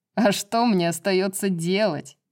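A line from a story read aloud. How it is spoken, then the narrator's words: Laughing. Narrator (Russian): засмеялся Баксиан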